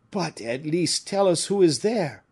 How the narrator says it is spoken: cried several furious voices

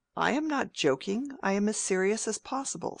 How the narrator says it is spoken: said the rector, with a provoking little inward laugh

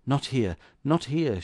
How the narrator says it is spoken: she whispered

